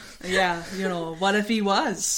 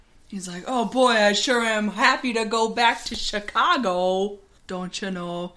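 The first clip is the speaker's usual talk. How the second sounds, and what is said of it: Put-on Minnesota accent. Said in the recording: “He doesn't have one of those accents. ... He's from Minnesota, huh? ... that accent”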